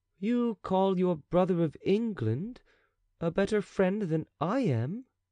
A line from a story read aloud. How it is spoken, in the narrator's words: said the king slowly